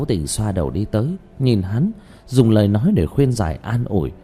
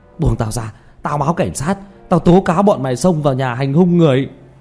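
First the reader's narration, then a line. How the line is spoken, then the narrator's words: Furious roar. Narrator (Vietnamese): Lưu Kế Toán gầm thét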